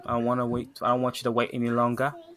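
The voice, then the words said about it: Very bad put-on British accent. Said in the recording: “What was that last, like, twang? ... It was a very bad British accent. I'm practicing accents right now.”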